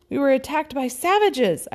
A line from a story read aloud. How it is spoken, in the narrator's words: cried